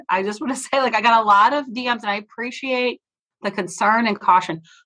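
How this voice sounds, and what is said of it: Congested, stuffy-nosed voice. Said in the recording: “I'm also on a lot of cold um, and like sinus things ... I just have a bad cold, which is probably why I sound a little congested.”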